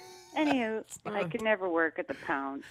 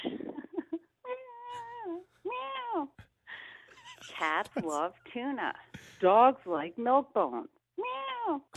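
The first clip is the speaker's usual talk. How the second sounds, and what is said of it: Cat meowing impression. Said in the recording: “She's spot on with that impression.”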